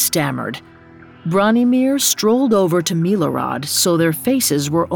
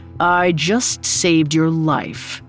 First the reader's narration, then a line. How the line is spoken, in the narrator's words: he said, his voice thick with disdain